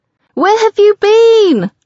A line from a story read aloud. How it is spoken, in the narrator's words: She yells over the music